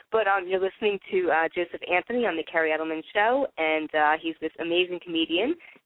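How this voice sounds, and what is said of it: Congested, sinus-affected voice. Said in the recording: “I'm sorry about my voice. I don't know what's happened. All of a sudden, I'm getting like these sinus problems.”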